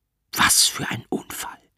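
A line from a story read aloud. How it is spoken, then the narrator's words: Doctor's whisper. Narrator (German): flüstert mir der Arzt zu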